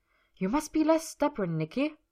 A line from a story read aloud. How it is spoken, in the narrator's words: Miss Gerda had told him harshly